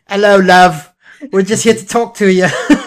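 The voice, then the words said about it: Put-on British accent. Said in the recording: “who's that weird guy with a British accent at my door?”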